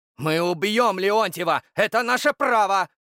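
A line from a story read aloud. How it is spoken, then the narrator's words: Dignified shouting. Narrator (Russian): кричал Дмитрий с достоинством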